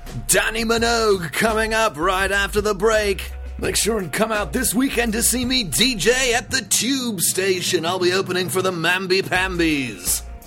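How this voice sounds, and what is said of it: British morning radio DJ voice. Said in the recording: “made me sound like a British morning DJ”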